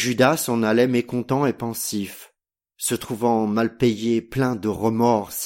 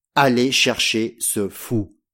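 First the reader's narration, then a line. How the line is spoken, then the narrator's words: Plain. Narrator (French): dit-il au satellite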